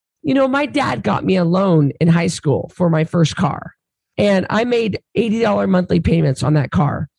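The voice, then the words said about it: Strained, worn-out voice. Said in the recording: “My voice is getting worse as I'm talking to you... I really need to rest my voice”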